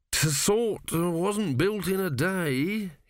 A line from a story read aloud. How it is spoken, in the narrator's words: he mumbled